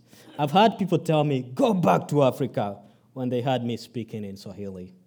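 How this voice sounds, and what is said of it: Noticeable foreign accent. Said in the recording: “coming from another country, another continent, people can look at me, hear me speak. You know, you can tell I have an accent ... dismiss me for my looks and my accent”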